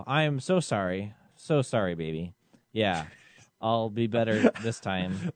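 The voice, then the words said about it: Flat robotic singing voice. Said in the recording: “is my robot voice not really portraying the passion of this song?”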